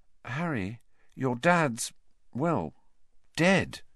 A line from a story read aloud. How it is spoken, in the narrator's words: she said quietly